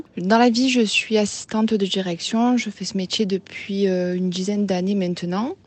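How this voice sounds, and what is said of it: Southern French Marseille accent. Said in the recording (French): “j'habite près de Marseille. Je pense que ça s'entend à mon accent.”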